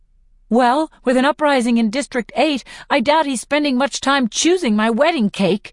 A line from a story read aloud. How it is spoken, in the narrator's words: I shout